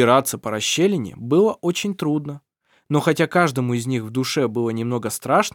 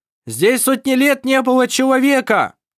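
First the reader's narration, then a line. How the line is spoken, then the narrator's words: Shouting. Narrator (Russian): прокричал Вассар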